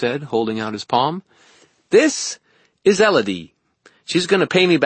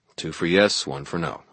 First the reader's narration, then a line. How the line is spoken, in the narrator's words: I muttered